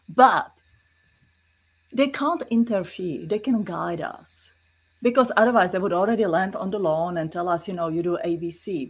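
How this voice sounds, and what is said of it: Czech-accented English. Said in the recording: “No, it's a Czech accent, it's a European accent.”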